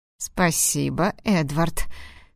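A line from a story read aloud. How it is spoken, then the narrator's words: Hoarse. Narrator (Russian): хрипло произнес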